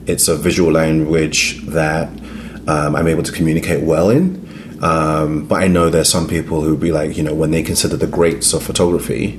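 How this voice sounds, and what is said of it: Slight British accent. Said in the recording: “You have a little accent that's clearly British.”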